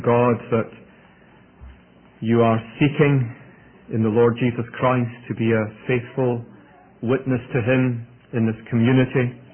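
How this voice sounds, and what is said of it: Scottish accent. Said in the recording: “my accent may be a little different from what you're used to ... it's Scottish ... my mellifluous Scottish”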